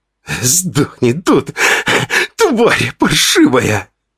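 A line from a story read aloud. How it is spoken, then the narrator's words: Hissed. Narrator (Russian): прошипел Ваня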